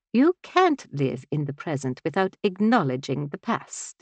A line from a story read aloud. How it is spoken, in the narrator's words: Nonna scoffed